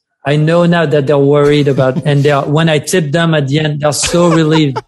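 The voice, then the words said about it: French accent. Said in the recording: “they hear my French accent.”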